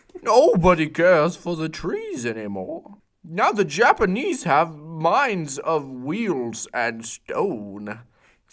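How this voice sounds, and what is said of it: Deep slow Treebeard character voice. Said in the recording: “my tree beard impression”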